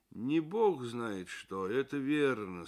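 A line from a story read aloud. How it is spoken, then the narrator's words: Gloomy. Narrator (Russian): сказал мрачно Дик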